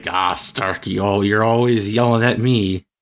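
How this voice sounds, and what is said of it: James Spader impression as Ultron. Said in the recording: “my James Spader impression”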